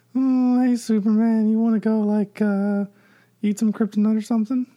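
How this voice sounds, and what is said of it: Imitates another person's voice. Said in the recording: “That was a pretty good Michael Cera impression.”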